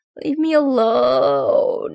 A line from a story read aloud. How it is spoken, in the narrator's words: moans a guy on a gurney in the hall